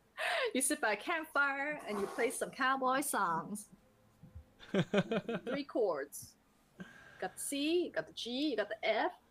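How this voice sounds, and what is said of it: Terrible put-on cowboy accent. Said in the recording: “Got a terrible cowboy accent”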